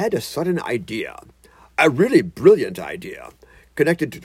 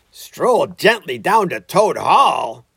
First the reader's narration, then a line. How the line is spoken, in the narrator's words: cried the rat, greatly excited